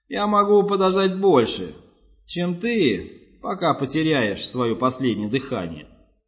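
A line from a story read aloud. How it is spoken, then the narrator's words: Plain. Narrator (Russian): сказала она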